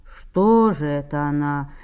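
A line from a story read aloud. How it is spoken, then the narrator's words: Elderly man, impatient. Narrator (Russian): сказал, не вытерпев, тот пожилой сосед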